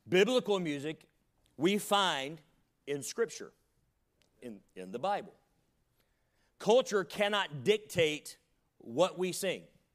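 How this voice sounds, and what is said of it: Slight Southern American accent. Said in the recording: “I'm from the South, and I have a little bit of an accent ... You don't sing with a twang like I do.”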